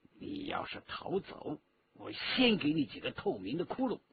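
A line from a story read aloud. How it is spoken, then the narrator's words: Low, threatening. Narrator (Chinese): 顾金彪低声对于玉彤说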